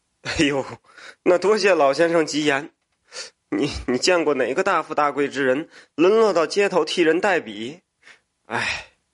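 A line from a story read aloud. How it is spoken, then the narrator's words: Laughing. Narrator (Chinese): 笑着说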